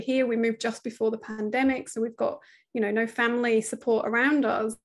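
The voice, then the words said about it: British accent. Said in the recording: “from the accent, you can tell we're British”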